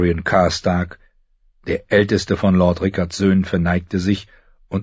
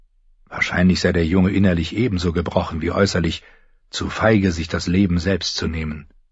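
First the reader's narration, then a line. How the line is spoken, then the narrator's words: Murmured. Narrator (German): murmelte der eine, der Namensvetter seines Vaters Eddard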